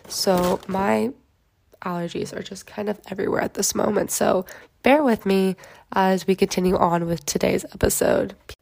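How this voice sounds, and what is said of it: Scratchy, raspy voice. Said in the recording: “if I sound super scratchy or just like kind of raspy, it's because ... my immune system is just fighting for its life right now”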